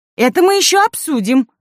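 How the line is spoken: Exclaimed. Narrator (Russian): воскликнула Райка Сидорова

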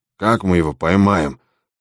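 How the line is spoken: Grumbling. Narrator (Russian): проворчал он

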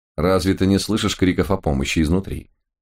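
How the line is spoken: Coldly surprised. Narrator (Russian): холодно удивился Лис

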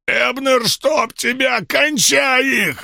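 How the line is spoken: Angry bark. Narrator (Russian): рявкнул Шоукомб

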